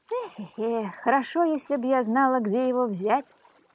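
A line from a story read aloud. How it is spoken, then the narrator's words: Old woman's sadder sigh. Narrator (Russian): Еще печальнее вздохнула старуха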